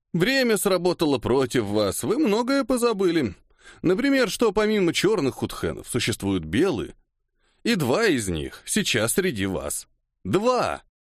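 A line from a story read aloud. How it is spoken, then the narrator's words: Loud guffawing. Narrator (Russian): Сикигами захохотал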